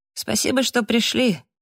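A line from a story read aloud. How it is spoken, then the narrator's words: Cheerful thanks. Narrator (Russian): весело поблагодарил их Фрэнк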